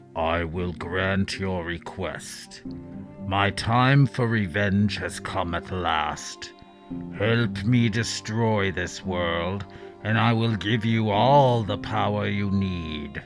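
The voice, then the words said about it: Deep, reverberating voice. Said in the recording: “a deep voice reverberated through the cave”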